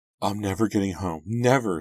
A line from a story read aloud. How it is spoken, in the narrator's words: Shannon cried